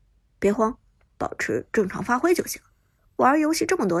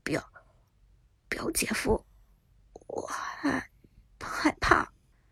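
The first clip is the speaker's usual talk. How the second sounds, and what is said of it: Quiet, hushed speaking. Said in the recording (Chinese): “小声的说”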